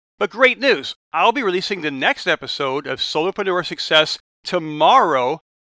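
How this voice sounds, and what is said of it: Strained, not fully recovered voice. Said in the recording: “I'm still recovering my voice as I record this. You probably hear it in my voice”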